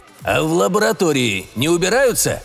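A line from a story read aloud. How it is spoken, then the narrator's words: Snort. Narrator (Russian): хмыкнул Евгений Степанович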